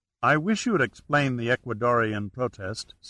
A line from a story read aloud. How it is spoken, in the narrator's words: said Gaskell